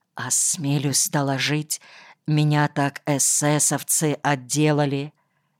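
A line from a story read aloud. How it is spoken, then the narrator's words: Whispered. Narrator (Russian): прошептал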